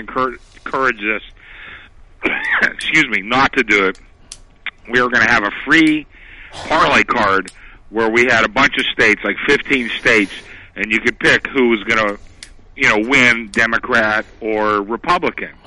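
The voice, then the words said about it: Slightly scratchy voice from a cold. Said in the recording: “I have a little bit of a cold here today ... if my voice gets a little scratchy”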